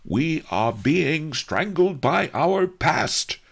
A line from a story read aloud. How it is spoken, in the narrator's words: roared the Duke of Qin